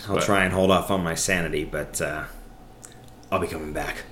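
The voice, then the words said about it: Joker-like villain character voice. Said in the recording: “That was almost your Joker impression.”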